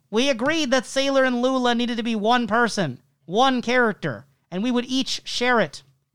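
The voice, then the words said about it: David Lynch impression. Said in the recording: “I'll just do a David Lynch voice instead.”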